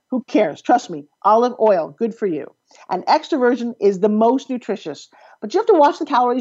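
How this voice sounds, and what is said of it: Fast-talking New York accent. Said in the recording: “I'm from New York. I don't know if you could tell by how fast I talk and a little bit of my accent comes across when I'm really tired ... you talk too fast”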